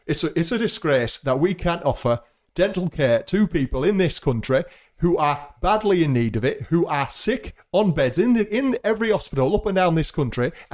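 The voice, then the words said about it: Put-on British politician accent. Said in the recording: “as the labor backbencher ... What accent do they have? ... You are the MP from Sheffield Hallam. ... With that accent.”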